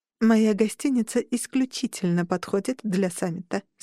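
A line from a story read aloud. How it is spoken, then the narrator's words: Plain. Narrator (Russian): сказала я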